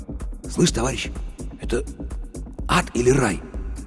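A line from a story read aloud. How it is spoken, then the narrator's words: Almost whispering. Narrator (Russian): тихо, почти шепотом спросил Пухольского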